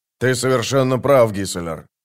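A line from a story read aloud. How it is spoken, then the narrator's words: Cold. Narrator (Russian): сказал он холодно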